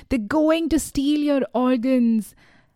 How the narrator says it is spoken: Sabina, who was by now conscious, was shouting

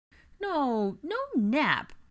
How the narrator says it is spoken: Aurelian whined

